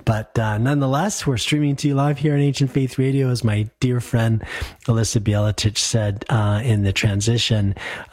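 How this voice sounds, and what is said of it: Voice still sounding sick. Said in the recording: “I also came down with my second bout of COVID... you maybe can still hear it in my voice... I think I'm feeling about 80% there”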